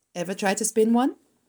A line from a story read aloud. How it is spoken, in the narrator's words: asked Dr